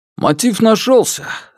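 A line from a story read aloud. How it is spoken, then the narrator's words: Joyful speech. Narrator (Russian): радостно сказал начальник Сюй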